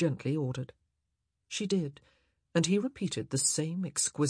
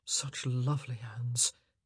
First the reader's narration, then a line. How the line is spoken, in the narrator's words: he murmured